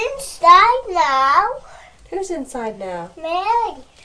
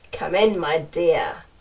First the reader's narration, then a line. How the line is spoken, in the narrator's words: growled the wolf